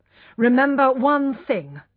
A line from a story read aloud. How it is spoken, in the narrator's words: he said angrily, only just controlling himself